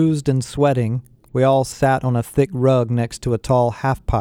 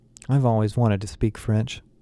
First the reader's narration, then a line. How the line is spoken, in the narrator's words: Becky said quietly, apparently unimpressed by the magnitude of our situation